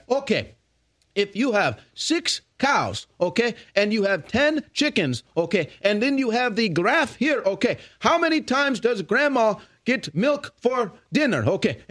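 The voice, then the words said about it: Imitated heavy hard-to-understand accent. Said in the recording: “a professor in who had a crazy accent that you couldn't understand”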